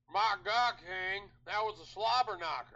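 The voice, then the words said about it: Jim Ross impression. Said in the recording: “do it in your best Jim Ross voice. ... That was pretty good. That almost sounded like Mr. Hat, though, a little bit, too. ... Gotta have more lower lip to be JR.”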